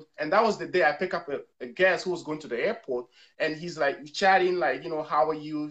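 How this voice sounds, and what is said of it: West African (Togolese) accented English. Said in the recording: “He hear my accent. He said, where are you from? I said, I'm from Togo.”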